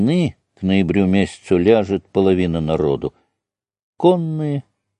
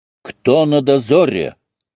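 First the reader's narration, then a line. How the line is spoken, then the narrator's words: Barked shout. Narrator (Russian): гаркнул Алексей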